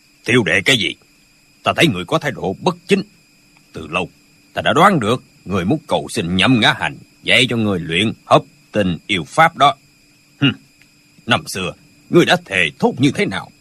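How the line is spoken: Cold. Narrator (Vietnamese): Hoàng Chung Công lạnh lùng nói

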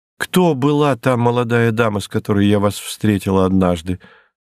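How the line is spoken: Plain question. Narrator (Russian): спросила Лиззи

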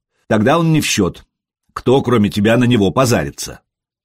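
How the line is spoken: Snorting. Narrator (Russian): Простен хмыкнул

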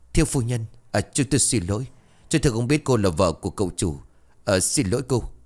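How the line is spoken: Frightened mumbling. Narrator (Vietnamese): hai người gia nhân sợ hãi chân tay run rẩy, lý nhí nói

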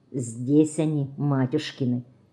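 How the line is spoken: Barely audible question. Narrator (Russian): Чуть слышно шевеля губами, спрашивает он

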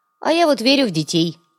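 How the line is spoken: Gloomy grunt, young man. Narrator (Russian): угрюмо хмыкнул молодой наемник

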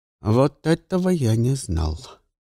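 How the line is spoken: Plain. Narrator (Russian): ответил Лагодинш

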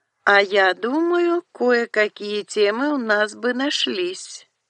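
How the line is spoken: Purring, catlike voice. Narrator (Russian): тот же кошачий, мурлыкающий голос

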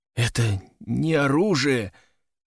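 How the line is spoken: Whisper, breaking voice. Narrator (Russian): прошептал срывающимся голосом

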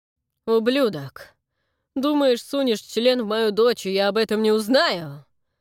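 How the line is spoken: Sober, growling. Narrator (Russian): Прорычал Фрэнк, вполне протрезвевший

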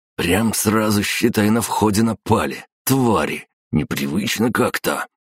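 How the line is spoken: Grumbling. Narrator (Russian): проворчал Олег

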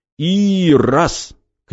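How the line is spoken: Shouting. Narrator (Russian): кричал Никита

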